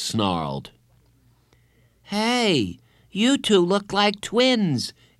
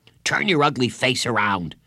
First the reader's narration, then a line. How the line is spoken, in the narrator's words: Jeff snapped